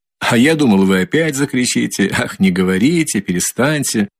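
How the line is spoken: Strained laugh. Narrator (Russian): Засмеялся Раскольников, но как-то с натугой

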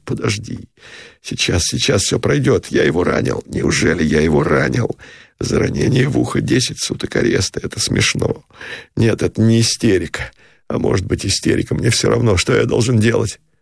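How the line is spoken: Sobbing whisper. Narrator (Russian): Всхлипывающим шепотом сказал он

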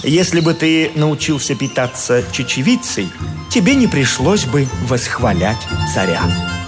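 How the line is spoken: Calm objection. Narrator (Russian): Диоген спокойно возразил

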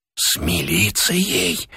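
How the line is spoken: Whisper from the door. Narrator (Russian): прошептал голос от двери

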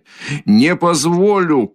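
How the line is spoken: Shouting. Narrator (Russian): крикнул было другой раз Раскольников

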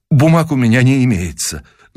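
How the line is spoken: Trembling voice. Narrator (Russian): дрогнувшим голосом проговорил Николаев

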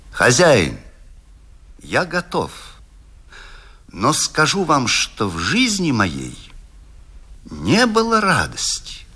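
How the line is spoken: Calm. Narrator (Russian): Паганини спокойно сказал ему

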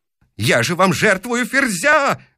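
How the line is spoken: Yelling. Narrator (Russian): вопит он

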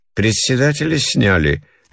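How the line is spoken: Lazy question. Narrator (Russian): лениво спрашивала жена

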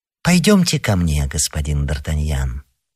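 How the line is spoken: Very pleasant voice. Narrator (Russian): проговорил Мазарини самым приятным голосом

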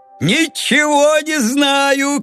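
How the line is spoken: Shouting. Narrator (Russian): кричал Леонид Сергеевич

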